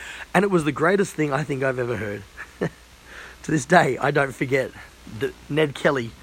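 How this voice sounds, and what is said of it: Usual voice. Nothing is said of it.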